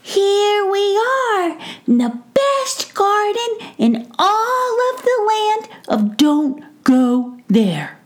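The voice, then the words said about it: Squeaky character voice. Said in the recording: “squeaky voice”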